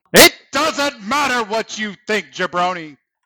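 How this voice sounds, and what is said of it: Pro wrestling promo voice. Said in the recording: “I've been watching a lot of wrestling promos lately ... I get that impression.”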